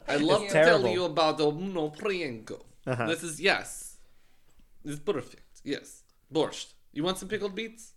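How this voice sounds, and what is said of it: Put-on foreign accent. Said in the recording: “I knew the accent was going to happen. ... the accents are gonna come out. ... So terrible.”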